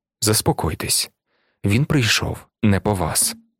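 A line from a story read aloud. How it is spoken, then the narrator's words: Very soft, calm voice. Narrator (Ukrainian): Жан Вальжан своїм надзвичайно м'яким і спокійним голосом сказав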